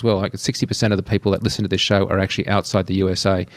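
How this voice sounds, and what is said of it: Accented speech, speaking a bit quickly. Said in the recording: “I apologize for speaking a bit quickly and the accent”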